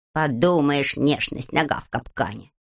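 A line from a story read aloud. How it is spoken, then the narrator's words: Grumbling. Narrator (Russian): проворчал Фикс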